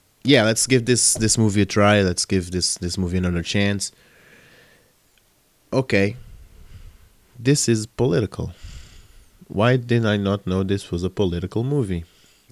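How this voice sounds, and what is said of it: Sick, rough-sounding voice. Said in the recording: “sorry for my voice, because I'm kind of sick.”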